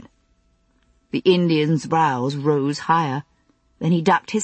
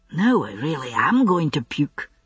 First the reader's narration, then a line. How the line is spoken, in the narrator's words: Jamie murmured, wincing under the ungentle ministrations